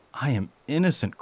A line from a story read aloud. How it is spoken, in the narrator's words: cried